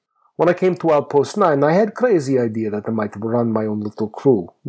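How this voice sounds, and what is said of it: Thick accent, dwarf character voice. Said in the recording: “my thick accent”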